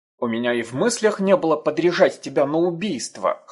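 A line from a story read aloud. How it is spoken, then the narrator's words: Amused snort. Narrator (Russian): хмыкнул Юкуну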